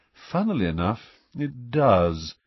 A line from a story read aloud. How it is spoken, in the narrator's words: said nearly headless Nick in a bored voice